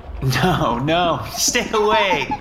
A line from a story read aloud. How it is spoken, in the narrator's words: she yelled while laughing